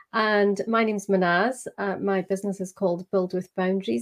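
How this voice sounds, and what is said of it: Scottish accent. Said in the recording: “I am just outside Edinburgh in Scotland. So in case you didn't gather from my accent.”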